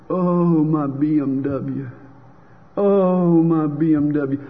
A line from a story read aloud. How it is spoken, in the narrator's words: moaning